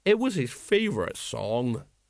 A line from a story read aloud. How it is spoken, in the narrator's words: said Colon sadly